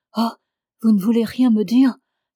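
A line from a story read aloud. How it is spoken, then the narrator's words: Muffled cry, face covered. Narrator (French): s'écria en cachant sa figure dans ses mains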